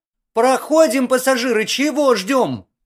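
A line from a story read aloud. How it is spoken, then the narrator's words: Piercing woman's shout. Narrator (Russian): Пронзительно закричала отставная бортпроводница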